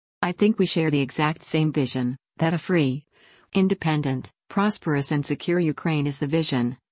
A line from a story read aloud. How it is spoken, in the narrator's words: he said